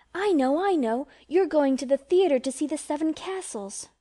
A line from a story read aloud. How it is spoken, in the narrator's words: she cried, adding resolutely